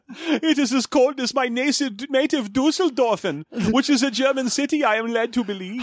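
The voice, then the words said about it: Put-on German accent. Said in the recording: “I am also here in German ... as the two of us are doing very convincing accents”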